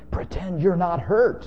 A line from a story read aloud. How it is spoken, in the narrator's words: they pleaded in loud whispers